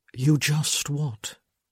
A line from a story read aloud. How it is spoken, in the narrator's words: he asked softly